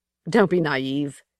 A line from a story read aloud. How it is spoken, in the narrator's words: she said with an edgy laugh